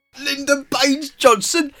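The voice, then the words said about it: American attempting a British accent. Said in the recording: “that's my American trying to do a British accent.”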